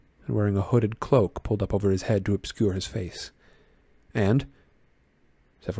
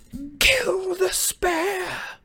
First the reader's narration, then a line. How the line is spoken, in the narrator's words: a second voice, which screeched the words into the night